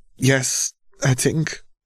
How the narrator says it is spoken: Tyrion stammered out

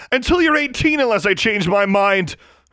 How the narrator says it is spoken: her mother shouted

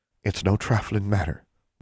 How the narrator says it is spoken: whispered Constance

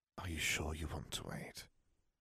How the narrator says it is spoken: Her whisper swept across his face, almost seductive

